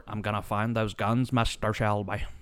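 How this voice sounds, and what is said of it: Exaggerated bad Irish accent. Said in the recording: “the god-awfulest Irish accent I've ever heard”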